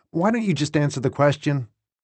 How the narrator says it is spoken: blurted Zuck, cutting me off

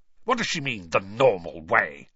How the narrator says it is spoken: he spat

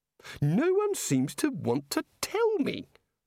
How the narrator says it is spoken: said the god irritably

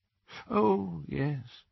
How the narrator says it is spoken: said Dumbledore faintly

